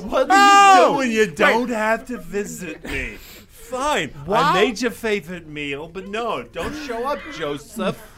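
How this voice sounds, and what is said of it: Put-on Jewish mother accent. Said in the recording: “You should be speaking as a Jewish mother ... has a third accent.”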